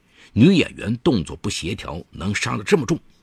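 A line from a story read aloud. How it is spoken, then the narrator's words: Angry, heartbroken. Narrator (Chinese): 罗永康沉浸在失恋情绪中，愤怒回应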